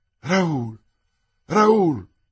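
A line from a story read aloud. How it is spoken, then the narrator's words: Exclamation. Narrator (Italian): esclamò il signor de la Fère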